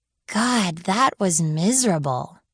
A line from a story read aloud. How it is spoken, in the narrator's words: she groaned